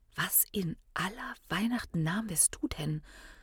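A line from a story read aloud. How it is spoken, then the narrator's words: Quiet question. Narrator (German): fragte Hiron leise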